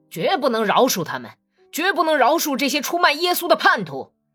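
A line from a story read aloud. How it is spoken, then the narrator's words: Frenzied, fanatical shouting. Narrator (Chinese): 他开始像疯子似的摇晃起脑袋，咽着唾沫大喊道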